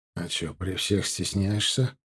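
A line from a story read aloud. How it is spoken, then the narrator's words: Quiet question. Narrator (Russian): так же тихо спросил я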